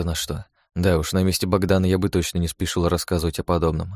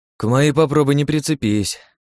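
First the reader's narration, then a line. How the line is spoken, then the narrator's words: Sighing. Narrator (Russian): вздохнул Богдан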